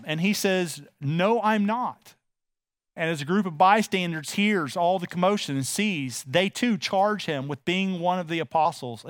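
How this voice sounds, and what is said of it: Texan accent. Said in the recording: “you know I'm from Texas because of the way I speak”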